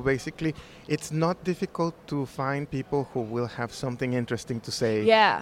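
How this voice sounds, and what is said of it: Slight accent. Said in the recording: “hear a slight accent.”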